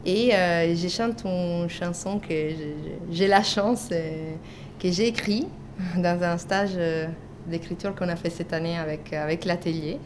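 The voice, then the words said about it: Slight non-French accent. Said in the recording (French): “mon petit accent fait savoir que je ne suis pas française”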